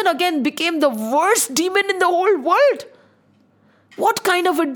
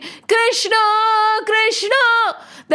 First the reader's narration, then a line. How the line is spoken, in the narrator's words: Every child started shouting